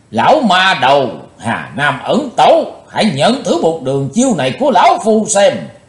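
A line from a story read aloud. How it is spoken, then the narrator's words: Deep heavy shout. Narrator (Vietnamese): Nam Tài Giả Hiệu nặng trầm quát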